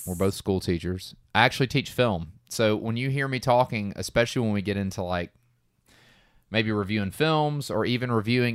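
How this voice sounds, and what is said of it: Southern US Georgia accent. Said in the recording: “If you haven't picked that up by at least my accent, I feel like we're from Georgia and we're in the Atlanta area.”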